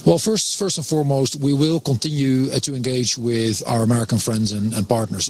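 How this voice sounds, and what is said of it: Dutch accent. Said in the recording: “he has the Dutch accent, but it's better. It's short.”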